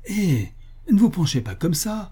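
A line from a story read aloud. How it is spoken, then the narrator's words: Shouting. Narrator (French): lui criai-je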